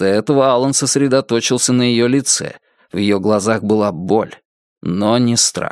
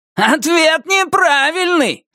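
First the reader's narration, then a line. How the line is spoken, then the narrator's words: Yelling. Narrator (Russian): заорал Туз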